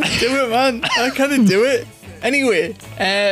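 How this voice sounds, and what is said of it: Usual voice. Nothing is said of it.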